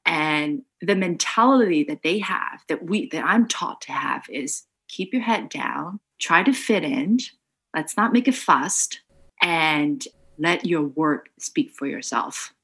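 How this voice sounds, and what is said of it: Slight non-native English accent. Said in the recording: “I still speak with a bit of an accent.”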